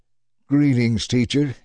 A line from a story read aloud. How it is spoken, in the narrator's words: he exclaimed